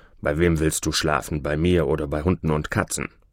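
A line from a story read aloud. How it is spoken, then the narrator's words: Wild man grumbling. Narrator (German): Der wilde, türsche Mann, der die arme Maria hereingelassen hatte, brummte nun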